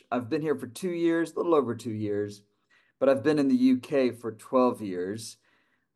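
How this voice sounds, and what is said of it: American accent. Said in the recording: “I'm from the U.S. And my accent gives me away, of course, over here in Cambridge.”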